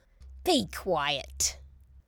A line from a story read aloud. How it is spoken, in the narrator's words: said Grandmother in her razor blade voice